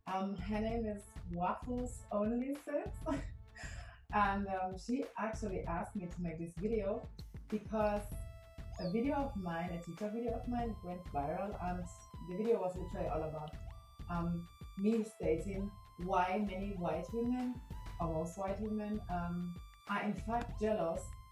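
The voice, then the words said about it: Eastern European accent. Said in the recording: “you recognize that accent ... Somewhere in East Europe, I think.”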